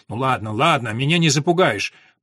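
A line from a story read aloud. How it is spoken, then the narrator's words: Grumbling. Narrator (Russian): проворчал Ода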